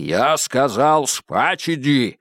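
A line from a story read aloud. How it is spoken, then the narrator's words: Menacing deep bass. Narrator (Russian): С угрозой пробасил Стрелковский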